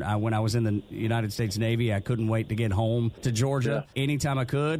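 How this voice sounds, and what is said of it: Strong Southern American accent. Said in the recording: “I sound like a big old hillbilly”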